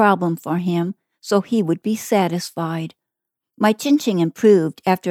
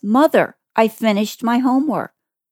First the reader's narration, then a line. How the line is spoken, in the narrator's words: happily says